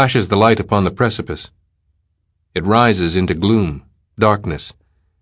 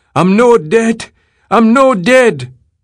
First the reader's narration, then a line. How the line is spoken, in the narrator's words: until his voice goes into a high, sustained screaming